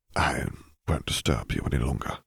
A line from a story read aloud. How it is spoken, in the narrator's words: he murmured